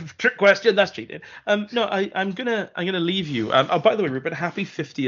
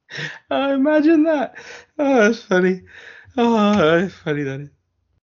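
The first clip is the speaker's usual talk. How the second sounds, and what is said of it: Impression of someone laughing. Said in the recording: “going to do an impression”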